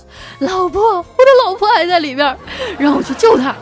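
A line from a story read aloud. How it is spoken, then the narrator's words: Heart-rending anguished cry. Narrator (Chinese): 一个男子撕心裂肺的痛喊着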